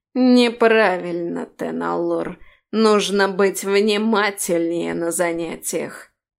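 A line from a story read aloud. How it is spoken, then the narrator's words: Snide, nasty voice. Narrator (Russian): ехидно ухмылялся и противным голосом заявлял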